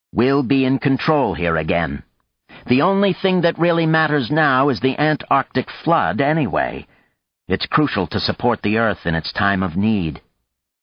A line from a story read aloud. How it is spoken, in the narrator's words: Hastings said to her sternly